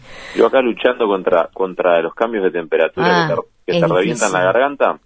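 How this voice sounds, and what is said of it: Hoarse, deepened voice. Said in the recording (Spanish): “con la voz un poco alterada... debo tener voz de hombre ahora”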